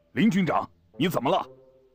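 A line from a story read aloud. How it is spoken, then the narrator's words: Loud call. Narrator (Chinese): 朱德大声呼叫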